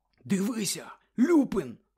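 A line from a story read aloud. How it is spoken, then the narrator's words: Exclaimed. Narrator (Ukrainian): вигукнув Гаррі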